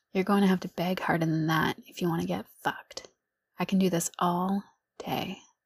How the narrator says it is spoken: I said in a knowing tone

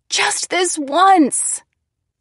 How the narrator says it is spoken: I screamed

